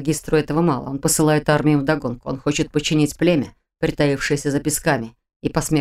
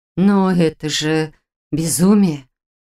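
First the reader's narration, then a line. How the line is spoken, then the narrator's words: Breathless exhale. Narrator (Russian): выдохнула тем временем Арра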